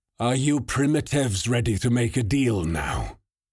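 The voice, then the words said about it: Sneering unusual foreign accent. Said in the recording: “he sneered in his unusual accent”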